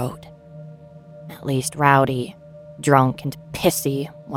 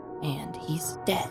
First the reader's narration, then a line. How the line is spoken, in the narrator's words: muttered to myself